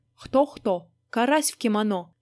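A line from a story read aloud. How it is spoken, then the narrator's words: Sharp reply. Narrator (Russian): резко ответствовал философский пескарь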